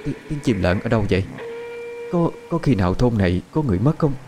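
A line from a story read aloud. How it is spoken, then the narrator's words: Frightened trembling voice. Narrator (Vietnamese): Quan bà kinh hãi, run rẩy nói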